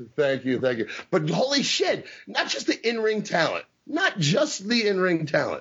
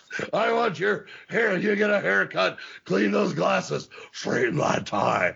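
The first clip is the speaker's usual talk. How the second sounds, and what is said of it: Imitates another person's voice. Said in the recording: “great Slaughter impersonation”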